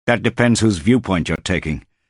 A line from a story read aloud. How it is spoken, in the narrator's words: Paul snapped back